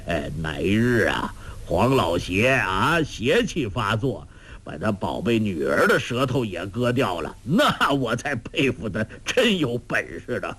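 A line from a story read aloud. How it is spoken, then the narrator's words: Laughing. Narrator (Chinese): 周伯通笑道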